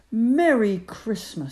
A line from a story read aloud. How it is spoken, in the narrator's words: shouted Ben